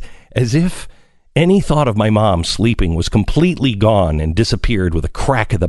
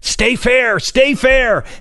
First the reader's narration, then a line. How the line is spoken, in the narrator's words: My dad yelled